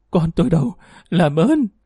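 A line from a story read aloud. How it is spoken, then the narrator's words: Terrified bloodied woman pleading. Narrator (Vietnamese): Mụ Hường mặt mũi be bét máu, trong sợ hãi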